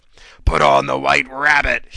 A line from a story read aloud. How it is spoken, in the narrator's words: howled, cackling fiendishly